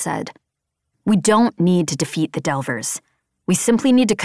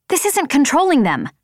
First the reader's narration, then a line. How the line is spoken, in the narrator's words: I snapped